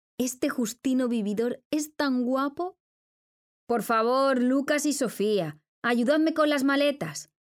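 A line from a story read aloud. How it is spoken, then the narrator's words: Shouted by mother. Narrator (Spanish): gritó la madre de los dos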